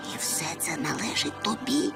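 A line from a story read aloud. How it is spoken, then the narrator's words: Breathless whisper. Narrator (Ukrainian): Затамувавши подих, прошепотів Чмих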